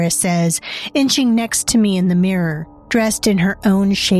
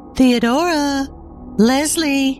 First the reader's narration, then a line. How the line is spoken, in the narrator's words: Her voice carries up the stairs like smoke in a burning building